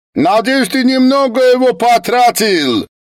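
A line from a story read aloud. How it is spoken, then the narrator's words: Ungrateful shout. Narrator (Russian): вместо благодарности крикнул Лави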